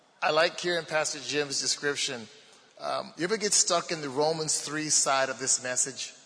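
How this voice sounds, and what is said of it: Baltimore accent. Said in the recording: “you can tell by my accent I'm from Baltimore”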